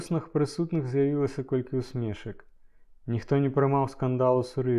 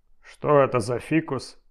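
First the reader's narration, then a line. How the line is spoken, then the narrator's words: Loud question. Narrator (Belarusian): гучна спытаў Жаба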